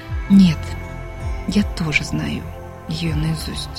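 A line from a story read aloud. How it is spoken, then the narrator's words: Quietly answered. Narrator (Russian): она тихо ответила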